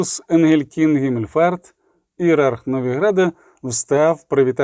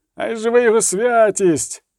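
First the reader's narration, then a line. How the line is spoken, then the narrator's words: Several hired voices shouting. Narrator (Ukrainian): викрикнули з натовпу кілька оплачених крикунів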